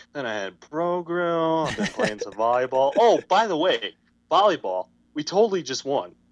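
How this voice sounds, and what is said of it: Imitates another person's voice. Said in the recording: “your impression of me doing you”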